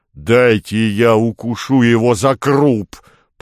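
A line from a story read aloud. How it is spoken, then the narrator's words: Growl. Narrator (Russian): прорычала левая голова двуглавого Юла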